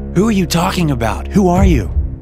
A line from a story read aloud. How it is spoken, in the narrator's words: screamed at the television